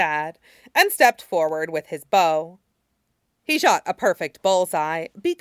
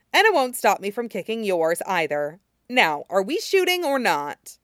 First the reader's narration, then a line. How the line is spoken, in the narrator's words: Jin Zixuan scoffed